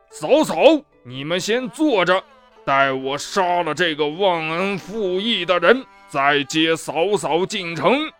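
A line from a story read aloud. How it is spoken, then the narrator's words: Roaring. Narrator (Chinese): 吼叫道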